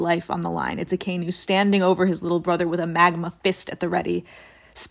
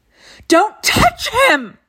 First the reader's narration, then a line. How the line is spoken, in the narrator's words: Ace screams